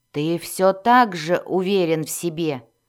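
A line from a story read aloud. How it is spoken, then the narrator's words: Growl. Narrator (Russian): прорычал Зак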